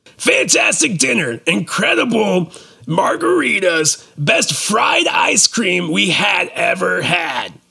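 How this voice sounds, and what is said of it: Review read in funny voice. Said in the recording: “bad reviews read in funny voices, or recently good reviews read in funny voices ... some of the best funny voice reviews”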